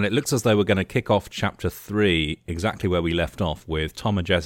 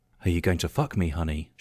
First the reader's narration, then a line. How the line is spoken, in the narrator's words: whispered submissively, with eager expectation